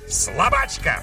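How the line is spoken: Witch barking. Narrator (Russian): рявкнула ведьма

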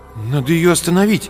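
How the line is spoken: Uncertain. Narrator (Russian): неуверенно сказал Артем

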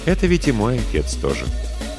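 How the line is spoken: Soft, reproachful interruption. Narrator (Russian): мягко, но будто укоризненно перебил его брат

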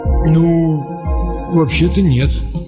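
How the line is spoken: Confused mumble. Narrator (Russian): растерянно промямлил разведчик

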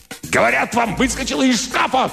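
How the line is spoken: Shouting. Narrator (Russian): кричал Димак

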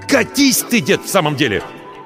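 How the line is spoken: Growl. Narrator (Russian): рыкнул он

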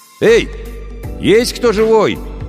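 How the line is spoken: Shouted. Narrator (Russian): крикнул

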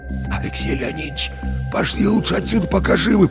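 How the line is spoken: Whispered. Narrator (Russian): прошептал Вася

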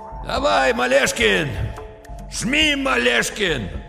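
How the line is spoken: Sudden cheerful youthful shout. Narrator (Russian): полковник вдруг почти весело, молодо крикнул

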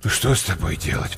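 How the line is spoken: Grumbling. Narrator (Russian): проворчал погодник

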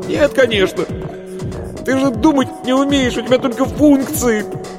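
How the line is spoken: Loud mocking laughter. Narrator (Russian): Варвара расхохоталась

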